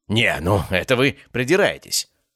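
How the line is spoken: Snapping retort. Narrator (Russian): практически огрызнулся Семен

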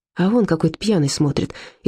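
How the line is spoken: Frightened whisper. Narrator (Russian): испуганно шепнула Зильке

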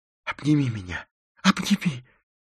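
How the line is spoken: Fearful whisper. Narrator (Russian): прошептал он, страшась надвигающейся смерти

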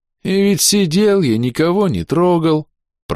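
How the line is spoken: Moaning. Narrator (Russian): простонал храбр

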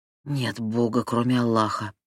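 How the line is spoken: Whispering. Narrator (Russian): прошептала она

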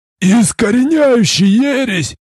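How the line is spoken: Old veteran's breath, then yell. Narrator (Russian): выдохнул ветеран, и что было мочи в старой груди завопил

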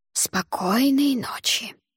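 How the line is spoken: Loud whisper. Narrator (Russian): громким шепотом объявил Алвар

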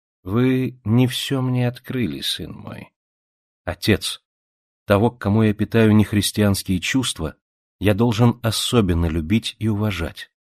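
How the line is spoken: Soft. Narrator (Russian): мягко сказал

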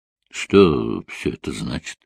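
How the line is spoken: Mutter. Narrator (Russian): пробормотал он

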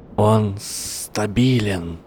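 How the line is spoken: Hiss. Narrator (Russian): прошипел Гарри

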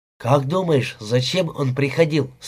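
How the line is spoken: Plain. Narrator (Russian): спросил Гилберт

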